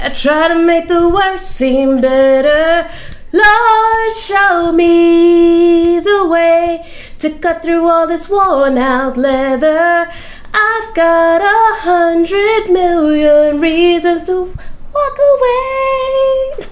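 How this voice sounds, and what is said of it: Nasal sinusy falsetto singing. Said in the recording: “The falsetto usually is better, you know, but... It's a sinusy falsetto... The sinus.”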